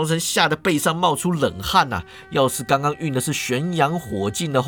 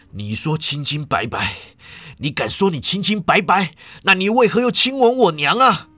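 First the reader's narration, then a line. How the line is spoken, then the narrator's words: Panting, cold. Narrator (Chinese): 他大口喘气，冷冷说道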